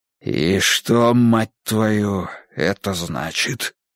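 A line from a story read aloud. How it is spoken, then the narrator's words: Low hoarse question. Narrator (Russian): спросил он низким, хриплым голосом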